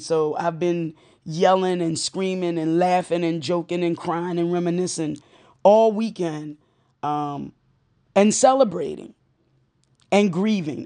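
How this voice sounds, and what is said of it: Strained, worn-out voice. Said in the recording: “you can hear my voice now because I've been taping throughout the day ... So this is why my voice sounds this way.”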